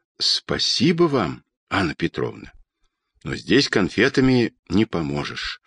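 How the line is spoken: Quiet, trembling lips. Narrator (Russian): тихо сказал летчик, и его смелые губы дрогнули

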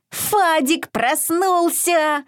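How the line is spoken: Happy grunting. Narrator (Russian): радостно захрюкал он

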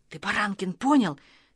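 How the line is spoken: Quietly continuing. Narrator (Russian): тихо продолжал Костя

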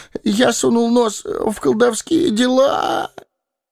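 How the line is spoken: Whimpering. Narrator (Russian): захныкал Пипин

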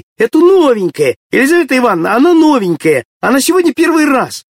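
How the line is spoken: Shouting from all sides. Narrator (Russian): Со всех сторон закричали

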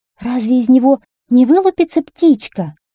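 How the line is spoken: Trembling voice. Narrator (Russian): начала была королева дрожащим голосом

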